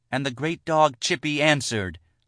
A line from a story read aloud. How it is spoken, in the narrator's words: Leah cried out